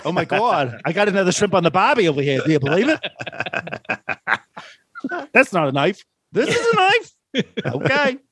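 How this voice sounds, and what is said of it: Put-on Australian accent. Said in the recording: “a flawless Australian accent”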